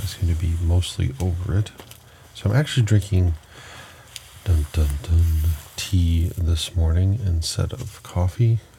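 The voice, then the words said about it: Deeper voice from a cold. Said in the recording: “My voice is a little deeper. This morning I'm nursing a bit of a cold.”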